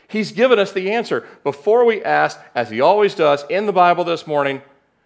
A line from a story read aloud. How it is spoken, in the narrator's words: said excitedly